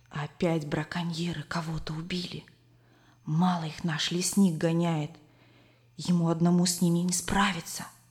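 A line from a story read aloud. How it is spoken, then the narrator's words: Whisper. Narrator (Russian): Коля зашептал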